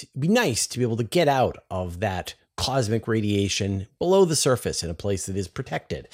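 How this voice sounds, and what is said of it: Canadian accent. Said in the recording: “Hilarious Canadian accent”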